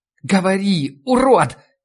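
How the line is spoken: Hysterical shriek. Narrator (Russian): взвизгнула мисс Клейн, еще больше входя в образ истеричной бабы

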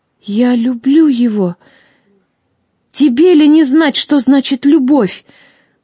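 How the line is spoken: Exclaiming. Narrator (Russian): воскликнула Вега

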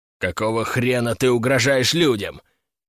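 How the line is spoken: Hiss. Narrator (Russian): прошипел он

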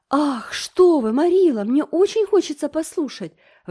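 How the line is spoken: Exclamation. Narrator (Russian): воскликнула Энн

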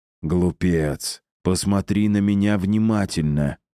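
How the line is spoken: Almost hissed. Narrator (Russian): почти прошипел он

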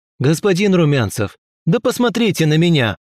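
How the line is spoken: Shouted. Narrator (Russian): Крикнул он

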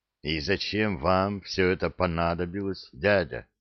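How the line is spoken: Muffled, hollow. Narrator (Russian): глухо спросил Анет

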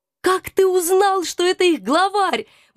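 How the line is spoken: Admiring exclamation. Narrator (Russian): восхищенно воскликнула я

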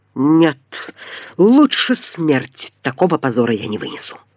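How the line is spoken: Strained, through gritted teeth. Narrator (Russian): с искаженным лицом процедил

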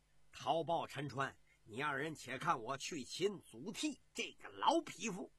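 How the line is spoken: Wild laughter, loud. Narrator (Chinese): 石虎止不住一阵的狂笑，高声的说道

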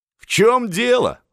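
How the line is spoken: Loud laughing. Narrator (Russian): захохотал Миних

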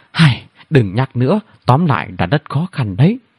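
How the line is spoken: Sighing. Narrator (Vietnamese): Chú Lê thở dài

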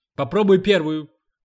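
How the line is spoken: Shouting. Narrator (Russian): крикнул он сыну

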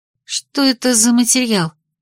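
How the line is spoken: Quiet question. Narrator (Russian): спросила тихо

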